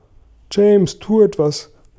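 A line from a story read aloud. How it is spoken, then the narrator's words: Shouting. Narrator (German): schrie Regenwurm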